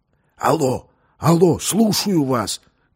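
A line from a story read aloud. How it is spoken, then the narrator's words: Loud whisper into microphone. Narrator (Russian): громко прошептал он в решето микрофона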